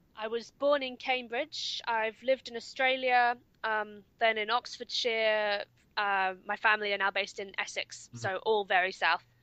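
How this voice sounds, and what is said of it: Southern English RP accent. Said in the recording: “I can't really trace any northern accent in your voice ... your English sounds very RP to me”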